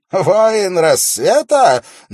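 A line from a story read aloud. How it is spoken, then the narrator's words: Mocking exclamation. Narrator (Russian): насмешливо воскликнул он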